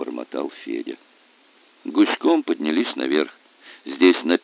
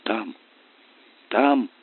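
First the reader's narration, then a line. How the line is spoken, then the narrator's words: Choked, breathless voice. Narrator (Russian): проговорил он перехваченным голосом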